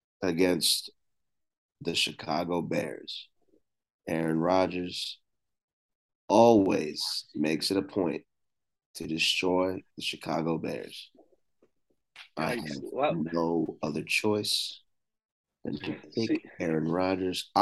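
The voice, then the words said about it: Flat monotone delivery. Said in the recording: “That's why I'm speaking in such a monotone voice.”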